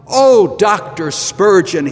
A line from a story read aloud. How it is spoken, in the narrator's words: he exclaimed